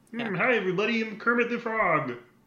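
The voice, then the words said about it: Kermit the Frog voice. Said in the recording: “That's really good.”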